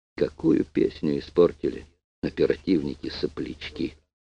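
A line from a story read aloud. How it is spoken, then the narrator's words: Plain. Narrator (Russian): сказал он Крячко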